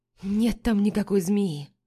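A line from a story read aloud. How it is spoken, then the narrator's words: Weary. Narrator (Russian): Устало произношу я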